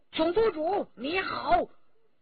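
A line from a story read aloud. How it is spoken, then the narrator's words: Loud shout. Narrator (Chinese): 文泰来、骆宾、徐天红、周启四个人都大喊一声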